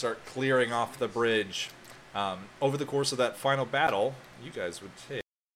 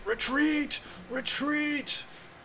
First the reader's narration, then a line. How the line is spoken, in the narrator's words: The soldiers start yelling